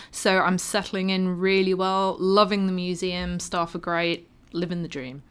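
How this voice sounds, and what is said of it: Non-Australian accent. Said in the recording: “you can tell from my accent, I'm not from around here.”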